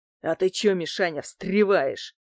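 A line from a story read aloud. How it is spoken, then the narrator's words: Angry question. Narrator (Russian): зло спросил лысый со шрамом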